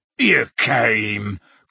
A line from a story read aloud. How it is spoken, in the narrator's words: croaked Hagrid